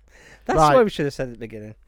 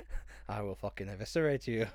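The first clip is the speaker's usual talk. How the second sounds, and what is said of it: Poor angry Scottish accent. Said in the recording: “angrier Scotsman ... that was a terrible accent.”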